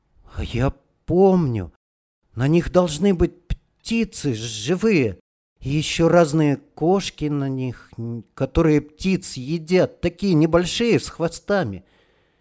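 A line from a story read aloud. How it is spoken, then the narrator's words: Child's uncertain voice. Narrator (Russian): мелкий вдруг сказал неуверенно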